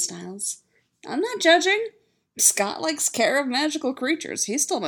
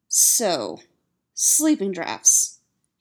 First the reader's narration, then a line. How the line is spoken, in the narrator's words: he says firmly